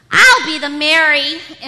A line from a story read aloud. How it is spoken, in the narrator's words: Imogene yelled